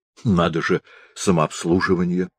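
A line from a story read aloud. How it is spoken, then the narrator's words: Muttering. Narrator (Russian): бормотал шеф-повар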